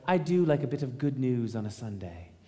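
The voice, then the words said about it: Put-on English accent. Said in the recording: “That's my best English accent.”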